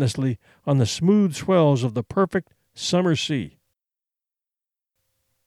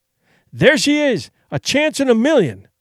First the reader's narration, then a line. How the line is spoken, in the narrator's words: he cried